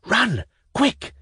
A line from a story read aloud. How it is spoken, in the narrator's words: whispered the girls to Velchaninov in despair